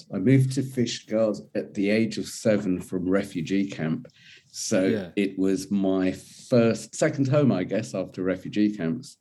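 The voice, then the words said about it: English accent. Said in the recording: “I still have an English accent”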